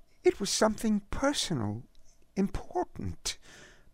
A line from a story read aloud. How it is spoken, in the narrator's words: Marion mumbled